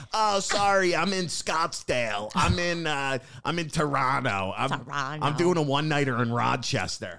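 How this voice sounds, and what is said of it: Imitates another person's voice. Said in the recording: “That is such a good Rachel impression.”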